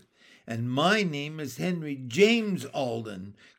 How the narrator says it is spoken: cried Henry

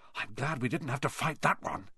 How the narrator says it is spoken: Harry whispered

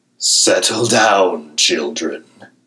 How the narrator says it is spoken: Loki says, though he's laughing himself

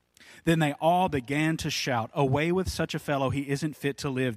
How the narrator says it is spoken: they yelled

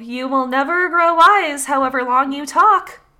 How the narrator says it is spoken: shouted the fox

